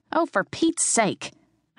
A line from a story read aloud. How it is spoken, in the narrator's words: I snapped